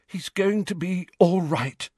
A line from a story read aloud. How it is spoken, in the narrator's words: she said, her voice weak with tiredness